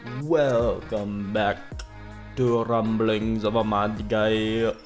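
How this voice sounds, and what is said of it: Put-on Jamaican accent. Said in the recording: “You let me know if I'm allowed to do a Jamaican accent.”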